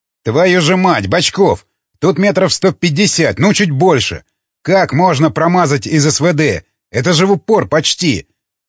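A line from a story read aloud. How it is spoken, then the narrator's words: Angry shouting middle-aged man. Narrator (Russian): Зло кричал Семен Поздеев, 50-летний сотрудник охраны Едакова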